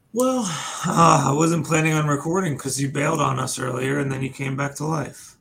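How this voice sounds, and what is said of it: Sniffly, sick-sounding voice. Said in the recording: “You sound sick. ... doesn't he sound sick? ... He sounds like he's got a little bit of the sniffles.”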